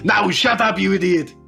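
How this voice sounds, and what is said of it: Bad Arnold Schwarzenegger impression. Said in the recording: “shitty impersonations ... Arnold Schwarzenegger”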